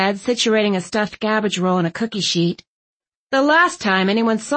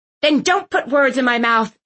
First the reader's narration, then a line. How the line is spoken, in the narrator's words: Aunt Tilly snapped